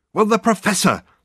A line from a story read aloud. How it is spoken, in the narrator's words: said Dirk impatiently